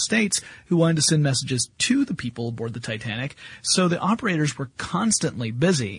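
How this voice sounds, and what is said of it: Usual voice. Nothing is said of it.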